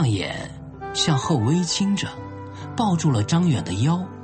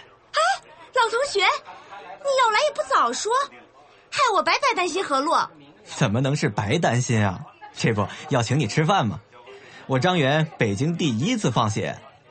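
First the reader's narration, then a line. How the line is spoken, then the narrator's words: Loud clamoring. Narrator (Chinese): 李云威立刻就大呼小叫起来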